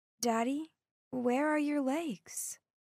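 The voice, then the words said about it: Small childlike voice. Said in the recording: “in my little voice”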